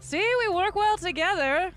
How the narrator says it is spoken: kind of yell at the group of Kobodon saying

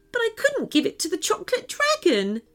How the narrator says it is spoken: she said, sobbing again

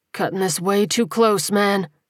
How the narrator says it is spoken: he groaned

